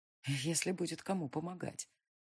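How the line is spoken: Ominous inner-voice whisper. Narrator (Russian): зловеще прошептал внутренний голос

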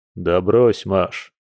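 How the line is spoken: Werewolf's amused snort. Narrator (Russian): хмыкнул оборотень

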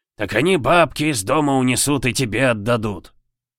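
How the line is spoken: Snorting. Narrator (Russian): хмыкнул Миронов

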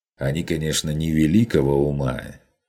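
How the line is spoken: Sighing. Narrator (Russian): вздохнул Ван Ален

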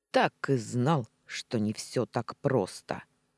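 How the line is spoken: Mage snorting. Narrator (Russian): хмыкнул маг

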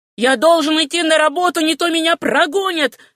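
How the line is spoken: Shouting. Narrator (Russian): кричал он

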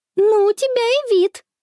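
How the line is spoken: Giggling. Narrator (Russian): хихикает Конни

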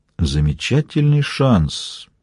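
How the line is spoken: Thoughtful reply. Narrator (Russian): задумчиво отозвался Костельно

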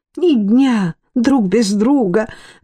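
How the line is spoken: Exclaiming. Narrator (Russian): воскликнула госпожа Дёрн

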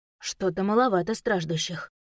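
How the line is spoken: Mumbled. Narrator (Russian): пробормотала

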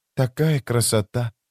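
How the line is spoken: Whisper. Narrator (Russian): прошептала она

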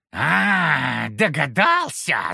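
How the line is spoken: Growled. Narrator (Russian): зарычал он

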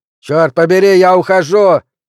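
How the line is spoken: Shout. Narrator (Russian): крикнул Джоуи

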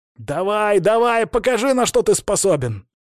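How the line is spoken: Furious battle shout. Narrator (Russian): кричал Алексей в боевой ярости

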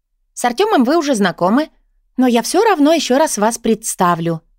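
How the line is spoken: Cheerful chirping. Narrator (Russian): весело щебечет Лена

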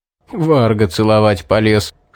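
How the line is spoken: Laughing chuckle. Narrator (Russian): хохотнул Стоун

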